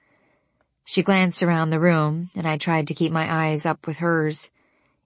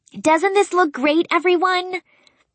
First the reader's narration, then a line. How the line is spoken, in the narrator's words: Spencer called out to the room